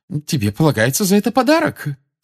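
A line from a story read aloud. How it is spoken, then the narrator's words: Loving exclamation. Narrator (Russian): с любовью воскликнула миссис Уизли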